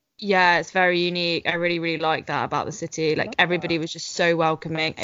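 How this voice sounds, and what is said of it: English accent. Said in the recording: “It might have been the English accent. ... We had a lot of comments on our English accent.”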